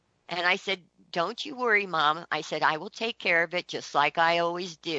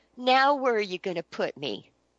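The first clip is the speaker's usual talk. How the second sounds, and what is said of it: Small, tiny, meek voice. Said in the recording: “in this little tiny voice,”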